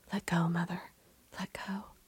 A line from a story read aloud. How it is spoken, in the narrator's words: whispering once again